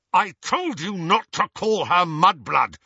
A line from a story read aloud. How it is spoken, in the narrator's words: snarled Harry